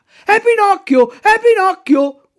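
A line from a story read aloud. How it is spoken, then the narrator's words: Puppets shouting in chorus. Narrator (Italian): urlano in coro tutti i burattini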